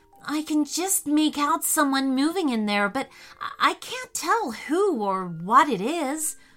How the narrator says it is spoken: whispered Riley, not wanting to draw attention to themselves, just in case

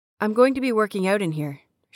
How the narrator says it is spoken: she said

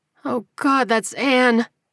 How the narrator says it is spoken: she moaned

